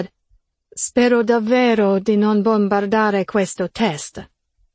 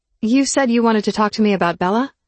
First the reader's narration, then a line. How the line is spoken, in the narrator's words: He chuckled